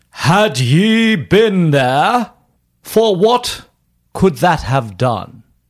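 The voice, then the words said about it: Old English accent, Milton impression. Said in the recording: “Do it in an old English accent, please. ... I want you to do an old ... English accent. ... do your Milton impression.”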